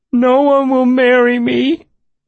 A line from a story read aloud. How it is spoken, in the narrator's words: El sobbed